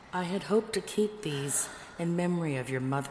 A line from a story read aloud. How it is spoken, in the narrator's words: he told Lupa sadly